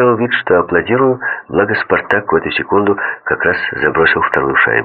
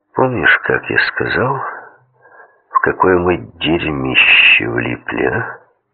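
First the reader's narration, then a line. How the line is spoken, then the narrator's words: Barely audible. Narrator (Russian): Опять еле слышно проговорил Меркулов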